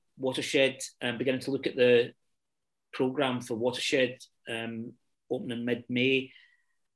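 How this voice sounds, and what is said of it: Hesitant, uncertain delivery. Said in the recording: “tell the hesitancy in my voice.”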